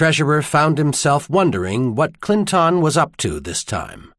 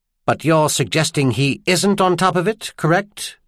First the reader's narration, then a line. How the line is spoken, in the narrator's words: Trenaire asked sharply